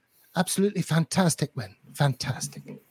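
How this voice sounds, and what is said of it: Imitates another person's voice. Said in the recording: “Great impersonation”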